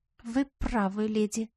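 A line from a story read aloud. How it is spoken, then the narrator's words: Embarrassed mumble. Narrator (Russian): покраснев как рак, пробормотала Тара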